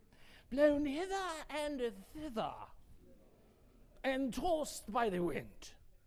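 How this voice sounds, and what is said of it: Put-on English accent. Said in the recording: “You almost have to say that with an English accent, right?... with a King James accent or an English accent”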